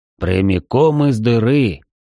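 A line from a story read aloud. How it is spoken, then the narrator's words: Deep bass grumble. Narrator (Russian): густым басом проворчал Цверк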